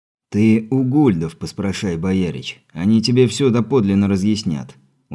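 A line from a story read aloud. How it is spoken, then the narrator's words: Weary sigh. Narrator (Russian): устало вздохнув, проговорил десятник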